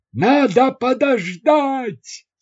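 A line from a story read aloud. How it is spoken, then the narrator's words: Yelled. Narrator (Russian): заорал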